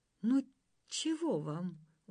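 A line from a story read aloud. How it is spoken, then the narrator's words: Glum, dejected. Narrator (Russian): уныло отозвался Пиф-Паф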